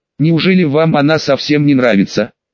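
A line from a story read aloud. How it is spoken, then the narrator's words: Skeptical snort. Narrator (Russian): Убежденный противник гарема хмыкнул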